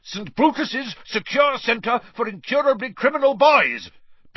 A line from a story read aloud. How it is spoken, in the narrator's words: bellowed Uncle Vernon, and Harry was pleased to hear a definite note of panic in Uncle Vernon's voice